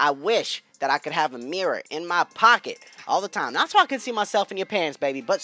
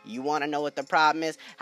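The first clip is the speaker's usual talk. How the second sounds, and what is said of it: Calm, flat monotone voice. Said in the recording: “Just a nice calm voice. ... Monotone.”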